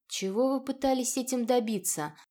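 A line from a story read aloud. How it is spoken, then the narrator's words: Forced calm. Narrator (Russian): Адер хоть и старался говорить спокойно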